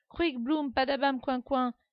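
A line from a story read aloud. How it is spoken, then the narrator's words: Excited yell. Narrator (French): hurle Ida, qui d'excitation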